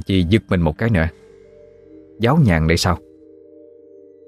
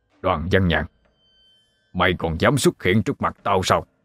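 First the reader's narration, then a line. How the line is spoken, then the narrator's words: Shouted. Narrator (Vietnamese): thầy Úc quát lên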